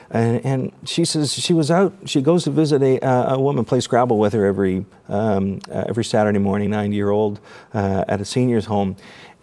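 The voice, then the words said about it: Choked-up, emotional voice. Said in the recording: “I get a little choked up talking about it”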